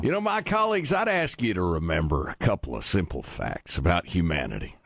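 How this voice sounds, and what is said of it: Folksy rural Southern Illinois voice. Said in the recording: “I'm from Southern Illinois, so I'll be speaking in a folksy voice.”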